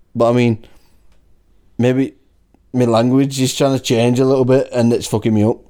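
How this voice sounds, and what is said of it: Wigan accent, not Scouse. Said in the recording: “You can tell you're from Wigan. ... When people hear you, they're like, he's from Wigan. ... You haven't got, Liverpool. Like, any Scouse in your accent”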